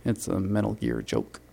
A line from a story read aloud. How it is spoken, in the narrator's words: I mumble